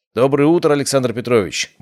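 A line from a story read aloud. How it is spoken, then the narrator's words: Cheerful alarm clock voice. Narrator (Russian): бодро произнес мой будильник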